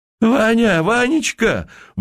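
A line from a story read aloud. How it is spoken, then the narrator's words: Piercing shriek behind wall. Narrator (Russian): взвизгнул пронзительный голос за стеной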